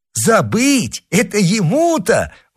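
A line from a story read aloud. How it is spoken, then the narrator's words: Exclaimed. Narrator (Russian): воскликнул мушкетон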